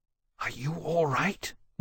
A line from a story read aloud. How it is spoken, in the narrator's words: Wolvie whispered